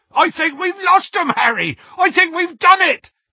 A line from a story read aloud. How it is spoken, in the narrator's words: yelled Hagrid